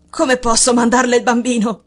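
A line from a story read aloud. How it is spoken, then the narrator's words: Exclaimed. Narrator (Italian): esclamò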